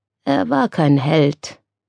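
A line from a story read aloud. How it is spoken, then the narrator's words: Thoughtful voice. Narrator (German): sagte Lucien mit nachdenklicher Stimme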